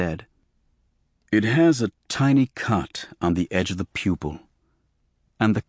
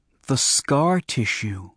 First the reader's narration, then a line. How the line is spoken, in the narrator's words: I said slowly